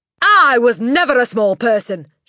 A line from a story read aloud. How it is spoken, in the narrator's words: she snapped